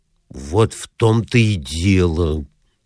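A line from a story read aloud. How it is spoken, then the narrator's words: Grumbled. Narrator (Russian): проворчал Маклири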